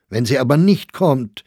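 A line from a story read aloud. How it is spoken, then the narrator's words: Exclamation. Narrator (German): rief Sachsberger aus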